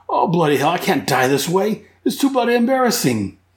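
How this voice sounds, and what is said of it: Exaggerated Australian accent. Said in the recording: “my terrible, horrible Australian accent”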